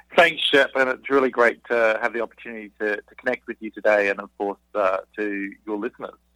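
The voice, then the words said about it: Noticeable foreign accent. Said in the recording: “man, I love the accent.”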